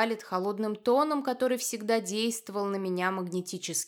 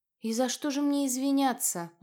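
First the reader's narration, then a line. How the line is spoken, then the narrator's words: Tired sigh. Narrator (Russian): Устало вздыхаю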